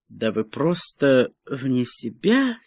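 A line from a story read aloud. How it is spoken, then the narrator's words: Embarrassed mutter. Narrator (Russian): с некоторым смущением пробормотал Лаклан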